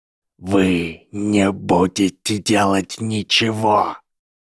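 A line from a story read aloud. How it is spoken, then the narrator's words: Hiss, dean. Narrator (Russian): прошипел декан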